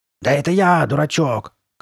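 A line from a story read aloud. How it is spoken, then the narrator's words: Shouted. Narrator (Russian): крикнула она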